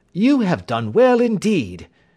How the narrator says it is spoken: cried Holmes with enthusiasm

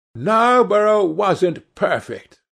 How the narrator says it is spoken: cried the old lady

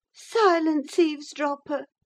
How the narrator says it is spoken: cried Catherine

